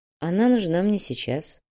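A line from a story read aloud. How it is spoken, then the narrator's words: Sigh. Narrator (Russian): вздохнул Кирилл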